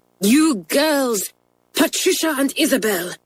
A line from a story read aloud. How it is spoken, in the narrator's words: she cried